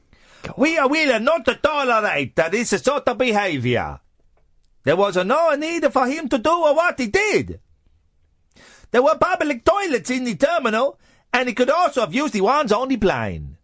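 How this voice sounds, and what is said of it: Put-on accent while reading quote. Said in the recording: “Do I do the accent? ... Go on.”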